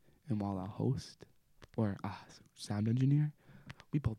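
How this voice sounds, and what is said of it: Usual voice. Nothing is said of it.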